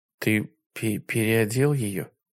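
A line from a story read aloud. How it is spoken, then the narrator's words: Muttering. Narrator (Russian): пробормотала Барбара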